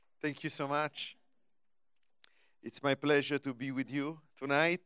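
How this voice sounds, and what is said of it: Foreign accent, Godfather-like. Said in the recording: “I hope you'll understand my accent. It's a good accent. ... you don't change the accent, it's cool. You sound like the Godfather.”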